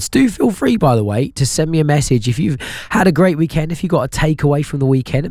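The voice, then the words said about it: Hoarse, strained voice. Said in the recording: “my voice is a little bit wrecked today”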